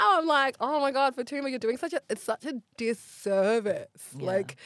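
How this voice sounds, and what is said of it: Usual voice. Nothing is said of it.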